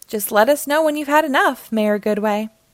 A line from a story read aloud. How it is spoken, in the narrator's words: chuckled Mayor Humdinger